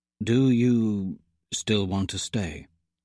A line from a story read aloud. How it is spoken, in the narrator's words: He asks hesitantly